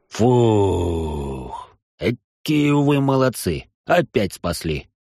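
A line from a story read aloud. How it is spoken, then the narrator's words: Relieved exhale, dwarf. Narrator (Russian): Выдохнул дворф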